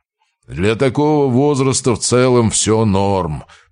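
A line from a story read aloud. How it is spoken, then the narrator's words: Grumbling mechanic. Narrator (Russian): проворчал автомеханик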